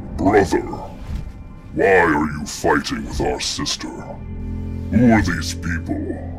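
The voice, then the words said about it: Booming character voice. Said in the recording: “in this booming voice”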